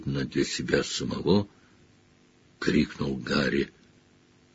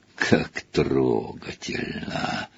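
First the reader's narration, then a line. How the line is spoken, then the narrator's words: Hissed. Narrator (Russian): прошипело оно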